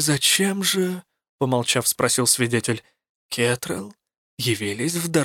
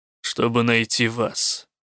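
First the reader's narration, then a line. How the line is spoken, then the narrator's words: Grim, curt remark. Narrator (Russian): мрачно обронил рук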